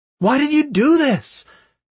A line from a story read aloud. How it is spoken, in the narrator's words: I shouted my question into empty air